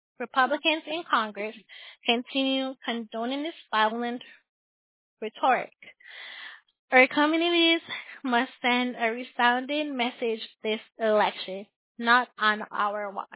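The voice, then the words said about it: Out of breath. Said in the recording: “I'm out of breath.”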